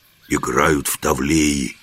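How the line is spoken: Whisper. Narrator (Russian): шепнул Жихарь

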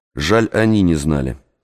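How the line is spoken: Plain. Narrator (Russian): сказал я

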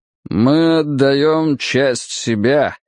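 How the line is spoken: Muffled voice. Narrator (Russian): глухо проговорил он

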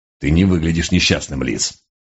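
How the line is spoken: Grumbling through teeth. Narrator (Russian): сквозь зубы проворчал сержант

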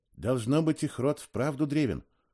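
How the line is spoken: Whispered. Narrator (Russian): шепнул я Ионе

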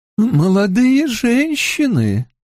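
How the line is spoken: Mournful interjection. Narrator (Russian): столь же скорбным голосом, как у мужа, вставила Ила

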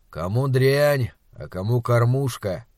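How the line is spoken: Gloomy. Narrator (Russian): мрачно сказал Уортроп

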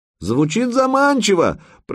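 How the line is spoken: Shouted reply. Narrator (Russian): прокричал в ответ Санек

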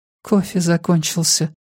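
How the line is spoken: Whispered. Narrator (Russian): прошептала она

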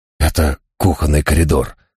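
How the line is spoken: Whispered. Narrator (Russian): шепнул я своему спутнику

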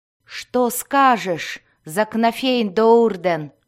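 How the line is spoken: Distant growl. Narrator (Russian): рычание Дзирта, доносившееся откуда-то издалека

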